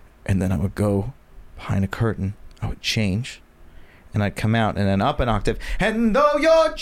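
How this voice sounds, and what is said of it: Usual voice. Nothing is said of it.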